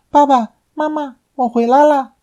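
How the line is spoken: Shouting joyfully. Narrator (Chinese): 邓芬……大喊道

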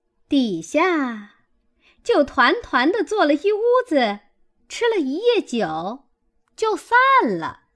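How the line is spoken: Laughing. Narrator (Chinese): 凤姐儿笑道

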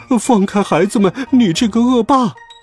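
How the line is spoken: Loud shout. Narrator (Chinese): 帕尔玛太太大声喊道

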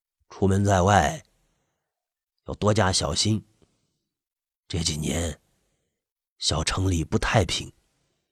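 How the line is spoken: Hushed, lowered voice. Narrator (Chinese): 那个人压低声音说道

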